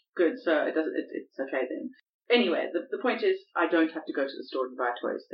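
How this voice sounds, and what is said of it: Non-posh immigrant accent. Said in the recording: “you come with the wrong accent. You do not sound like the Queen or Rees-Mogg. You sound like a bloody immigrant”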